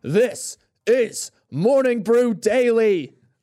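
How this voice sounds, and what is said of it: Spartan movie character impression. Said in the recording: “That was my Spartan impression.”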